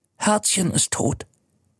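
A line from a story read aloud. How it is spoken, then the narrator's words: Whisper. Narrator (German): flüstert er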